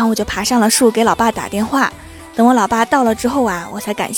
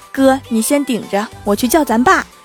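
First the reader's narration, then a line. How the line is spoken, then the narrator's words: Outnumbered plea. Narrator (Chinese): 我一看寡不敌众啊，就跟我哥说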